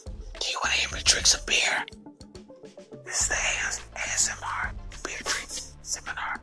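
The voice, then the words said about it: Loud ASMR-style whisper. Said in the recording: “ASMR... I'm whispering very loudly inside your ears.”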